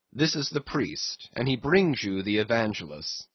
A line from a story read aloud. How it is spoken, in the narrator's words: said Don Sebastian gravely